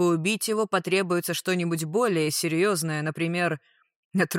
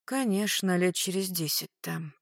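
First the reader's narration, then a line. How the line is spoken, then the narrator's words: Female mutter. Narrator (Russian): пробормотала дознавательница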